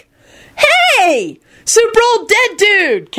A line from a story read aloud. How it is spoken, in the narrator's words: Kenny screeched blissfully up at Reginald